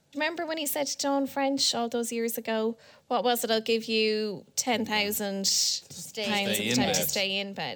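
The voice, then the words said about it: Neutral newsreader-style accent. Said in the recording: “you wouldn't know from my newsreader accent”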